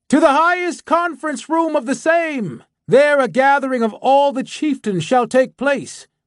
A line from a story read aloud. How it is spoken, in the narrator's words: a second cavalier shouted lustily